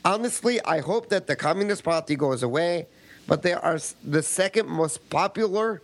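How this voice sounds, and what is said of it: Put-on foreign accent. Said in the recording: “You can drop the accent now.”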